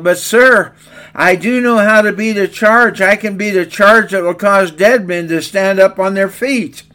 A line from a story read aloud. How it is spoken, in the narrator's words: Sensing the desperation of his commander, the boy yelled